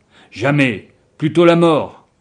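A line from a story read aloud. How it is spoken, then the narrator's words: Exclaimed. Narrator (French): s'exclamait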